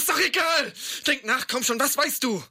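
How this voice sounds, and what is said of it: Frantic, agitated speech. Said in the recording (German): “Du klingst völlig durchgedreht.”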